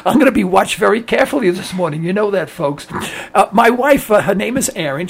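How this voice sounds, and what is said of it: Strained, affected voice. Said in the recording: “I've had a very bad case of acid reflux ... it affected my voice, so I cannot speak that much”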